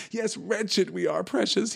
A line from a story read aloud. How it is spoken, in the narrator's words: he whined